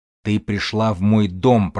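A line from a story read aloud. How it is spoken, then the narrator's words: Growling. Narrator (Russian): прорычал фармер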